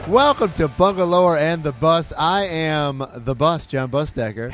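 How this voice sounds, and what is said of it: Raspy, hoarse voice. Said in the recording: “raspy voice ... I'm kind of sick. ... You sound like a drag queen.”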